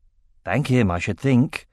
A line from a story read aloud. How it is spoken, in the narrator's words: said Baldur